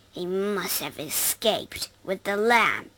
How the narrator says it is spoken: he snarled

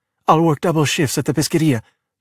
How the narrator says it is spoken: Giulia said quickly

